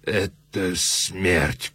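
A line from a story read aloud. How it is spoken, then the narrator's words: Moaning. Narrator (Russian): простонал Муро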